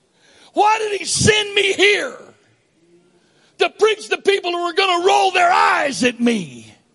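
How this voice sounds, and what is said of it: Rural redneck American accent. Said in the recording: “my accent implied I was ignorant redneck from out of the woods somewhere”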